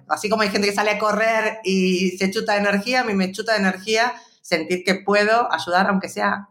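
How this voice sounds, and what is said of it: Argentine Buenos Aires accent. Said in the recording (Spanish): “¿de dónde viene ese acento? ... yo soy porteña, de Buenos Aires, originaria de Argentina”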